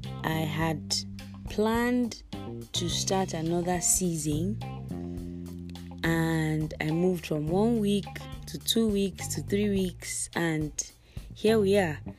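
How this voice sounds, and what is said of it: Hoarse, partly lost voice. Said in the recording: “my voice is a bit different. ... I lost my voice”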